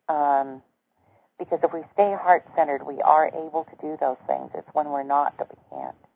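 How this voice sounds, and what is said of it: Strained, fading voice. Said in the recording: “As you can tell, I'm losing my voice again.”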